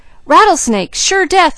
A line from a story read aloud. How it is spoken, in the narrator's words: yelled Jud